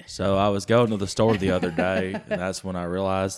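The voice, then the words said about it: Forrest Gump-like drawling accent. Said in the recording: “It's very Forrest Gump. ... it goes really Forrest Gumpy.”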